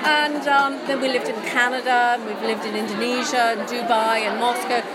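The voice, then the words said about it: English accent. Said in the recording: “that made my accent more English.”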